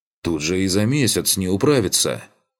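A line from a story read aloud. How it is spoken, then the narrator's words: Indignant. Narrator (Russian): Возмущенно закончил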